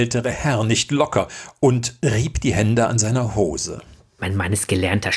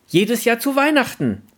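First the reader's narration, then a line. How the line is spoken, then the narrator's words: Voice calling from crowd. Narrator (German): rief eine Stimme aus der umstehenden Menge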